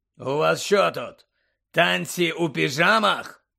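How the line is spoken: Growl. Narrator (Ukrainian): прогарчав він

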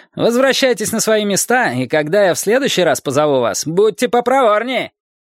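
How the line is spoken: Shouting hunchbacked leader. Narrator (Russian): крикнул горбатый предводитель

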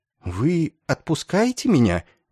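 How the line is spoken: Uncertain question. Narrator (Russian): Неуверенно поднявшись, спросил капеллан

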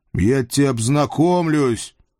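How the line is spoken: Deafening bark. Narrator (Russian): рявкнул я так, что парень слегонца оглох на одно ухо

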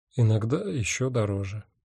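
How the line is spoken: Sad, smiling. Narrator (Russian): печально улыбнулся я

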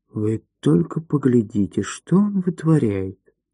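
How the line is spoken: Whisper. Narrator (Russian): кто-то прошептал

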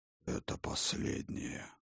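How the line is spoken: Muffled voice. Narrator (Russian): глухо сказал Яргахор

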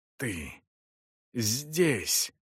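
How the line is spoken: Wheezing rasp. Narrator (Russian): прохрипел Эсон

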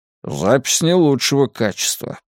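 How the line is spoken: Grumbled. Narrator (Russian): пробурчал Мунк

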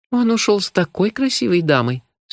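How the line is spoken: Regretful sigh. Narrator (Russian): с явным сожалением вздохнула хозяйка

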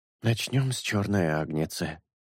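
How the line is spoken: Muttered. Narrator (Russian): пробормотал шелк

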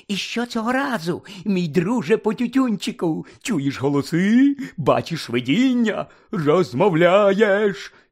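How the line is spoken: Loud hissing. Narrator (Ukrainian): Півз голосно засичав

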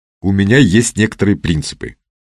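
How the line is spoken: Plain. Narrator (Russian): сказал Макаров

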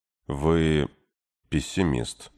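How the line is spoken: Sad repetition. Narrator (Russian): печально повторил мужчина

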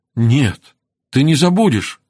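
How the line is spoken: Exclaimed. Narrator (Russian): воскликнула она

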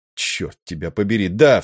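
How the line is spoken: Angry exclamation. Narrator (Russian): в сердцах воскликнул Николс

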